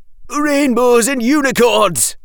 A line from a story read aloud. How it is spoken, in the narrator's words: roared the Sunshine Captain